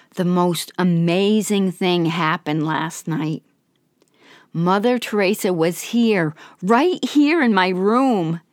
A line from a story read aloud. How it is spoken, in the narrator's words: she exclaimed joyfully